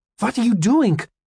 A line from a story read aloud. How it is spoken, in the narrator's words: I cried